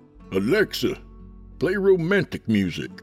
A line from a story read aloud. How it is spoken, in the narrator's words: he called out